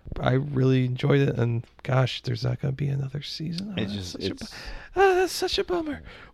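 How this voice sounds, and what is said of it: Hoarse, strained voice. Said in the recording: “Now that I'm losing my voice”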